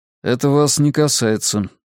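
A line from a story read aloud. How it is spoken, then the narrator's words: Dry curt reply. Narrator (Russian): сухо ответил я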